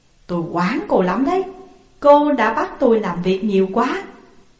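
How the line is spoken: Smiling, joking. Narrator (Vietnamese): Công mỉm cười và nói đùa

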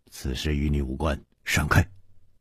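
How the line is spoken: Stern, sharp. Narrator (Chinese): 蒙面客厉声说

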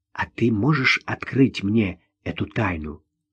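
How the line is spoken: Whispered request. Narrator (Russian): шепотом попросила она

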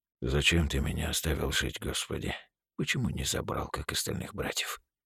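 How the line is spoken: Soundless lip whisper. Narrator (Russian): прошептал он одними губами

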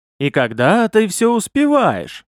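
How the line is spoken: Cheerful, mouth full. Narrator (Russian): С аппетитом уничтожая перепелку вместе с костями, весело проговорил Овар

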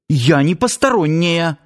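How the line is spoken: Irritated. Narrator (Russian): вновь раздраженно притопнула Надя

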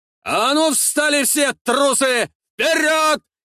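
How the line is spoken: Shouting. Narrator (Russian): кричал Димитр

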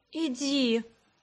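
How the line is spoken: Suffering moan. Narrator (Russian): страдачески простонала я

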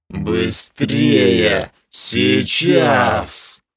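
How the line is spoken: Furious hiss. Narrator (Russian): Яростно прошипела Снесса кобра

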